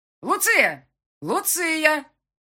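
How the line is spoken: Cheerful yell, echoing. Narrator (Russian): весело заорал Курт, и эхо подхватило его слова

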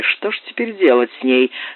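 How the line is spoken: Plain question. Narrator (Russian): спросил его Раулей

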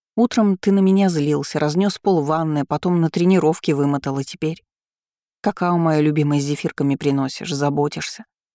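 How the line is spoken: Resigned sigh. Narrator (Russian): Он обреченно вздохнул

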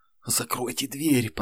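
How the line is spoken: Whisper. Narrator (Russian): прошептал Юнос

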